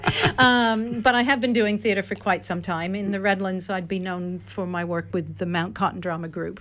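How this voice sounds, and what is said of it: Australian accent from Victoria. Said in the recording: “My accent may give away that I didn't grow up around here ... Victoria”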